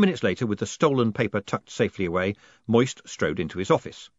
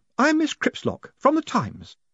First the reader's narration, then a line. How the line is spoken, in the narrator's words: she said brightly